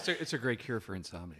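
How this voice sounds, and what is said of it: Calm public-radio announcer voice. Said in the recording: “NPR voice”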